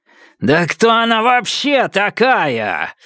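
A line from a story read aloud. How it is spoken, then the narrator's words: Yelling. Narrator (Russian): заорал Темса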